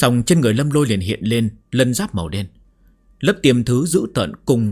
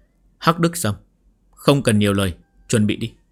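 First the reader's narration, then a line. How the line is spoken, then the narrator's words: Cold. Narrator (Vietnamese): Lâm Lôi lạnh lùng nhìn Hắc Đức Sâm nói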